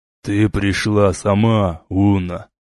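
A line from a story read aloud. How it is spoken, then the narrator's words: Drawled. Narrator (Russian): протянул он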